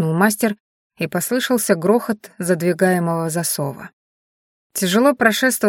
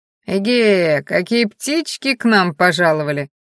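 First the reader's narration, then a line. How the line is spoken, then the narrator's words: Mocking drawl. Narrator (Russian): насмешливо протянул Мадиш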